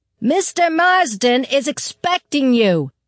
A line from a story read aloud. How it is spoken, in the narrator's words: she yelled